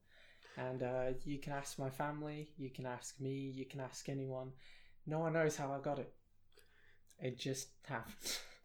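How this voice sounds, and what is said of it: British accent. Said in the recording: “I don't have a South African accent and I don't really have an Australian accent. I have a British accent.”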